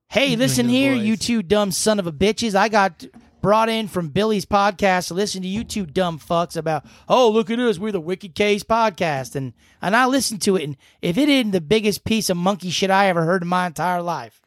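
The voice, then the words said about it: Put-on American Southern accent. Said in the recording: “I don't know why I use a southern accent with it.”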